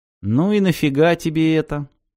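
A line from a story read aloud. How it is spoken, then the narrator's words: Gloomy question. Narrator (Russian): мрачно осведомился Пеккер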